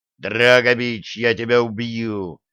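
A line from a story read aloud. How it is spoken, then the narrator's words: Growling. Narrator (Russian): прорычал Греф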